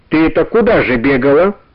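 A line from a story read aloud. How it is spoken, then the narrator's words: Stern question. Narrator (Russian): строго спросил Иван Гермогенович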